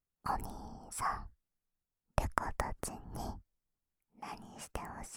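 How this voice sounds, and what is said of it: Whispering close to the mic. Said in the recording (Japanese): “耳元で囁くの”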